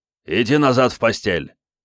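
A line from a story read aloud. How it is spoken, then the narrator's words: Barked. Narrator (Russian): рявкнул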